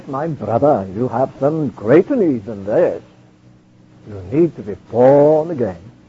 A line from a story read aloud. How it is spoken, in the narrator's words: George said in his deep Welsh voice